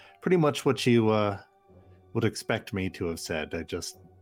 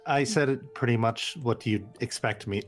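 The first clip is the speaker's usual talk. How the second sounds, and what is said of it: Speaks in a put-on accent. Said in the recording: “Sorry, the accent carried over.”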